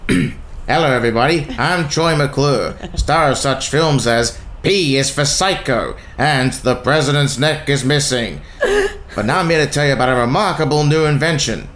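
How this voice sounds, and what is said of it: Impression of cartoon TV host character. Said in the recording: “a bit of a reenactment of one character from the Simpsons. His name's Troy McClure ... he's the TV host ... Can you do an impression”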